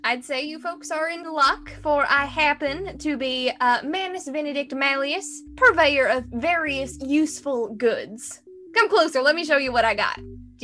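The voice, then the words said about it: Put-on Southern US accent. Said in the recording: “the southern accent really surprised me ... I haven't tried that kind of accent before, so I hope it went okay”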